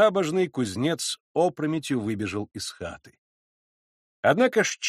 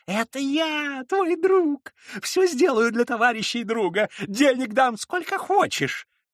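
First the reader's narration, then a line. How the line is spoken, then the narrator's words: Squeaked into ear. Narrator (Russian): пискнул он ему в левое ухо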